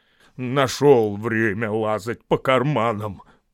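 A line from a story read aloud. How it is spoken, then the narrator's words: Grumbling. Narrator (Russian): проворчал Бомбур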